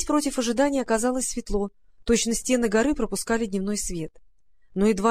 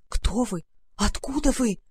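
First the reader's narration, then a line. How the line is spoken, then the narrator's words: Terrified whisper. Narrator (Russian): зашептал он в ужасе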